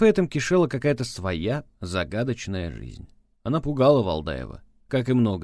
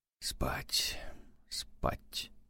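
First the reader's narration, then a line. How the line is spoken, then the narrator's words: Whispered. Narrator (Russian): прошептал он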